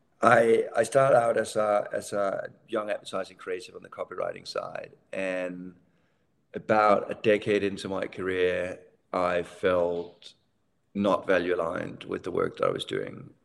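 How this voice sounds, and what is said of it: Danish accent. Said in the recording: “as you might hear in the accent, I'm from Denmark”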